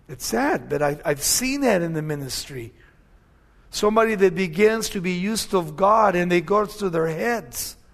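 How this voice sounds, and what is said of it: Mexican-sounding accent. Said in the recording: “I have an accent, I know that for sure ... Nobody in my family has an accent, but I got the accent ... they think I'm this little short, fat Mexican, you know, speaking on the radio”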